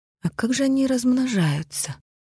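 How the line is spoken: Thoughtful drawl. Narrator (Russian): задумчиво протянула Таня

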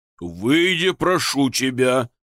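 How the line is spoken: Hoarse wheeze. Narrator (Russian): просипел господин Костелано

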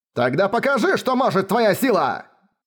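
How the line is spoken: Shout. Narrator (Russian): Крикнул

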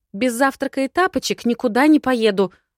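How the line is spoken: Snapping retort. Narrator (Russian): огрызнулась

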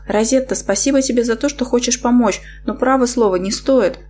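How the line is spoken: Timid objection. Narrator (Russian): робко возразила я

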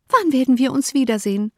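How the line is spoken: Called out. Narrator (German): rief

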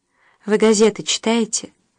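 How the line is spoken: Young man's gentle question. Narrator (Russian): мягко, почти нежно спросил юноша

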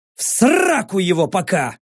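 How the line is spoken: Barked. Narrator (Russian): рявкнул

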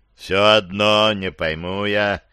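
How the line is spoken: Low droning boom. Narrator (Russian): снова прогудел Труба

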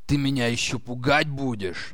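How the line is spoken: Angry growl, slightly quieter. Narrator (Russian): Все еще злобно, но уже на полтона ниже рыкнул

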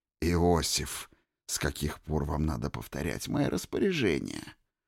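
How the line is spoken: Gentle, affectionate asking. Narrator (Russian): Ласково осведомился Лев Давидович

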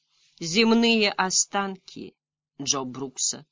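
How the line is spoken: Slightly sad. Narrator (Russian): сказала немного печально

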